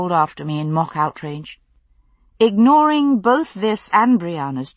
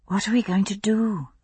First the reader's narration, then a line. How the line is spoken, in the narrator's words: I said softly